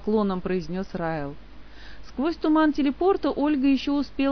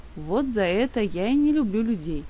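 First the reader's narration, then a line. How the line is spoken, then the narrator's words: Sad remark. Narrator (Russian): грустно заметил Райл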